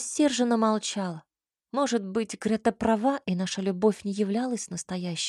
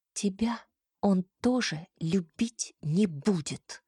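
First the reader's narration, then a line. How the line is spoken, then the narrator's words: Through gritted teeth. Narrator (Russian): процедила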